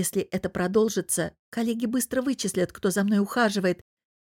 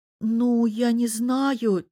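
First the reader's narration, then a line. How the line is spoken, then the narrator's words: Uncertain drawl. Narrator (Russian): тянет неуверенно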